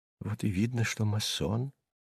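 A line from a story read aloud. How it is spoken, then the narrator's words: Whisper. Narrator (Russian): шепнул мне Сувенир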